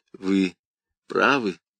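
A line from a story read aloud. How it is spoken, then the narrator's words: Soft start. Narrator (Russian): мягко начал Каррас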